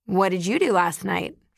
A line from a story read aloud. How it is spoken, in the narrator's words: asks